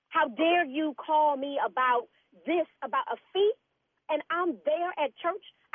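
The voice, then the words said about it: Raised, angry voice. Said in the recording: “raising your voice at me? Why are you raising? Did you just raise your voice at me? ... you got to calm down a little bit now”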